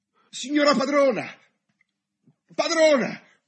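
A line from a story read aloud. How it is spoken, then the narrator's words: Frightened trembling shout. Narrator (Italian): Spaventata e tremando tutta, a gridare dalla finestra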